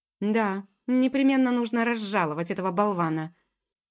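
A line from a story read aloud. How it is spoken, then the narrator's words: Angry prince, through teeth. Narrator (Russian): процедил все еще сердившийся принц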